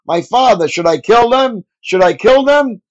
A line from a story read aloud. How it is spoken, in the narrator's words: When the king of Israel saw them, he shouted to Elisha